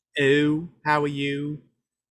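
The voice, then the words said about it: Exaggerated Baltimore accent, distorted O's. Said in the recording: “I don't have a Baltimore accent because people in Baltimore screw up the O's.”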